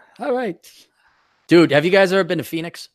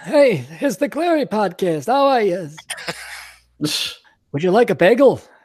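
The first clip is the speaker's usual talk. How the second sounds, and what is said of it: Put-on Jewish accent. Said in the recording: “I should do my Jewish accent.”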